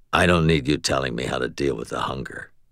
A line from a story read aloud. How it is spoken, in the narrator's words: Thomas said in a low voice